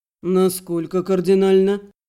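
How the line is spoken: Displeased grumble. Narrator (Russian): недовольно буркнул Андрей

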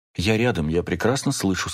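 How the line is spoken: Plain. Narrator (Russian): сказала Рахель

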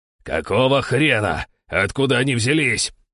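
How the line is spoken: Skipper yelling. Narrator (Russian): орал шкипер

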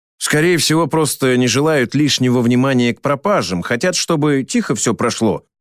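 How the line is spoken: Plain. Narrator (Russian): ответил я Лобычевой

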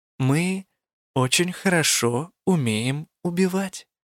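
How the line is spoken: Purring. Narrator (Russian): промурлыкала она

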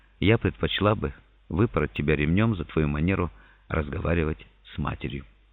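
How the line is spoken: Mother whispering. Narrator (Russian): Мама шепнула мне

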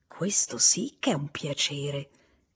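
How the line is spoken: Rather low voice. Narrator (Italian): disse con voce piuttosto bassa

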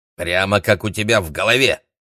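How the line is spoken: Grandmother snorting. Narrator (Russian): фыркнула бабушка Сяомин

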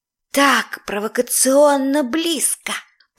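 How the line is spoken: Burning, passionate whisper. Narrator (Russian): прошептала, сгорая заживо

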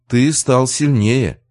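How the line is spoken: Tired remark. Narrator (Russian): заметила Алиса, устало

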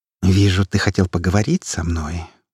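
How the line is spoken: Purring. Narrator (Russian): промурлыкала она

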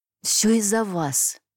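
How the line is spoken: Angry hiss, woman. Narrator (Russian): со злостью прошипела она

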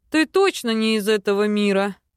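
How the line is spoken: Snorting. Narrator (Russian): Фыркнув, Кай

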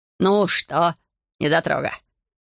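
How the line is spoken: Short laugh. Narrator (Russian): хохотнул он

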